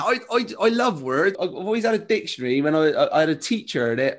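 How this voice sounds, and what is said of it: Bristolian West Country accent. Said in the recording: “you hear that accent, that Bristolian accent ... people with a West Country accent”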